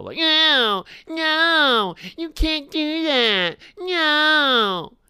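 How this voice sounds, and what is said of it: Mocking imitation of Sony. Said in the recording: “Who's this you're imitating? ... Sony.”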